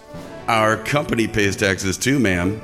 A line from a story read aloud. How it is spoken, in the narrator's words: I replied